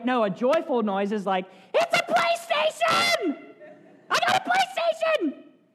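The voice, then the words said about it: Loud, high-pitched excited shout. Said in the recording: “A little loud? ... I got a high voice.”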